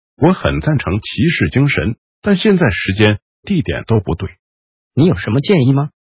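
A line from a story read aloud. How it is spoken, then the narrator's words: Lowered voice. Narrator (Chinese): 弗林特压低声音说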